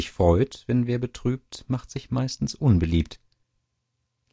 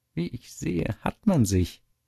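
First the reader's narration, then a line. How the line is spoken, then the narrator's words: Laughing, malicious. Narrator (German): lacht der böse Schlich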